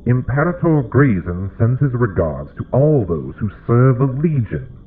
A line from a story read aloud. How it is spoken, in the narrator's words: the herald said, his voice strange and distorted within the mask